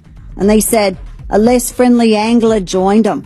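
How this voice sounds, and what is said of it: Decent put-on Australian accent. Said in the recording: “That's actually not a bad Australian accent.”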